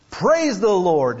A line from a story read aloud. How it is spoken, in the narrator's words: she cried out